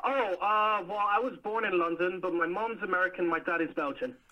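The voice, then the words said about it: Slightly unusual mixed accent. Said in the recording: “the accent sounded a bit different, yeah, funky”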